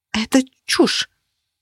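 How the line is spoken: Forced out reluctantly. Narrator (Russian): наконец выдавила я

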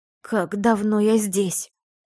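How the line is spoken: Hoarse question. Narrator (Russian): Охрипшим голосом спросила

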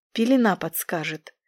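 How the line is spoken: Soft, angel. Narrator (Russian): мягко произнес второй ангел

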